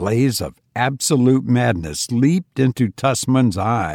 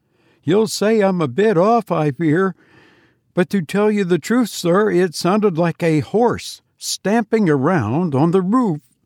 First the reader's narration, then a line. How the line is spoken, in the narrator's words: the man laughed apologetically